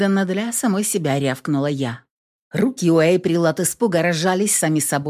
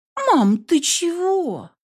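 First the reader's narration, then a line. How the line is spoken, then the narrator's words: Drawn-out, frightened child. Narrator (Russian): Протянула дочь, испуганно глядя на меня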